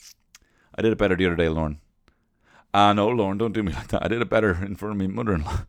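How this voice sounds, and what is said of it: Usual voice. Nothing is said of it.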